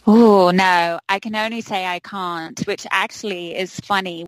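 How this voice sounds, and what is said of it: English accent from London. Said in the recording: “you are not speaking in the same way that Garrison Keillor says Minnesotans speak ... I originally hail from London, England ... my English accent”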